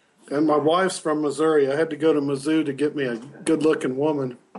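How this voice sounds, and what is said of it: Missouri-Texas hybrid twang accent. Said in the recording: “you got the accent to match ... that hybrid Missouri-Texas thing twang you got going on there now”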